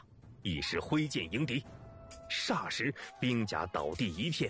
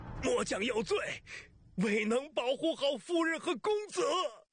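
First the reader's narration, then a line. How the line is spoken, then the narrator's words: Hoarse shout. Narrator (Chinese): 副将嘶哑着声音喊着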